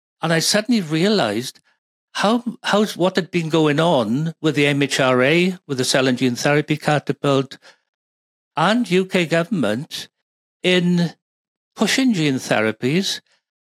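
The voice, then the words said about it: Speaks with a noticeable accent. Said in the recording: “your accent.”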